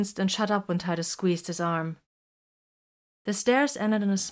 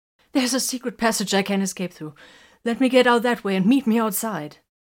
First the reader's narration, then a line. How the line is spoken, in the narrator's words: Makar gasped